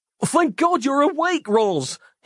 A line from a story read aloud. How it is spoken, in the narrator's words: he screamed